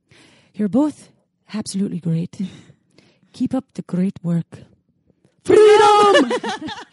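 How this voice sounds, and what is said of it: Put-on Irish-Scottish accent. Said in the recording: “They requested this in an Irish Scottish accent. ... you got both. ... I got both.”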